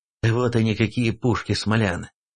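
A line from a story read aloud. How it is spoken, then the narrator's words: Hoarse horrified whisper. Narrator (Russian): Охрипшим голосом, с ужасом в глазах, не проговорил, а прошептал князь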